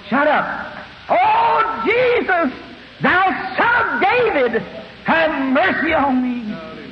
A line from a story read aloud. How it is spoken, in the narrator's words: The rest of them around here hollering also